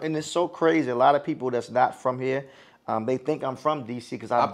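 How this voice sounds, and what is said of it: Slight DC accent. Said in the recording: “I hear the accent a little bit ... DC ... twang”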